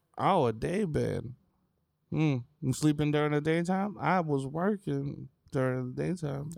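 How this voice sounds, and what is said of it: Put-on old lady voice. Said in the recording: “I don't know what this voice is doing. ... An old lady voice. ... I don't know that old lady voice.”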